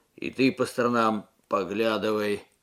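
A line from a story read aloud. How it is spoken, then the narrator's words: Gruff mutter. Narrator (Russian): буркнул Алексей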